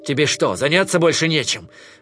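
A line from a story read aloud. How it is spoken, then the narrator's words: Irritated remark. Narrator (Russian): раздраженно заметил Кинай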